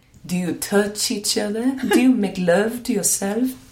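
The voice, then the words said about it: Soothing Esther Perel accent impression. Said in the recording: “I desperately want to try and do her accent, but I know it will come out wrong. ... It's such a soothing voice”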